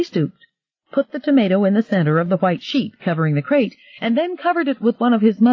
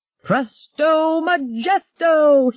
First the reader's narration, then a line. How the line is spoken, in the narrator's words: he yelled